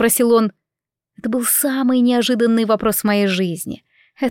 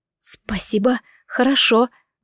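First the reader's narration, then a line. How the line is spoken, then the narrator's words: Strained, forced out. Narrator (Russian): выдавила я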